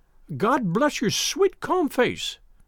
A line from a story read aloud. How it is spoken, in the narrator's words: she cried with an hysterical sob